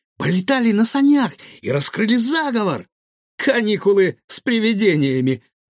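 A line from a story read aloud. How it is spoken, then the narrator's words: Pleased giggle. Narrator (Russian): довольно хихикнул Гаврош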